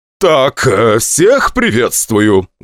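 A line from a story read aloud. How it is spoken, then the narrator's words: Loud announcement. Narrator (Russian): громко объявил Чубов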